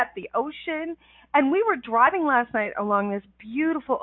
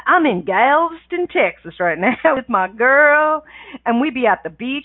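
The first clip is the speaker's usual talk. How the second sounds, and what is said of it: Put-on Texan drawl. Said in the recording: “I need to put a drawl on that. ... I don't know why I'm talking like this.”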